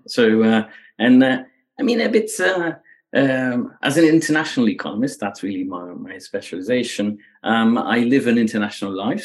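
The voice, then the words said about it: Slight Belgian accent. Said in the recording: “you already hear that there's a bit of an accent ... I grew up in Belgium. Right. So that's where the accent comes from”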